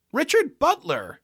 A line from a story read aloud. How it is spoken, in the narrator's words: cried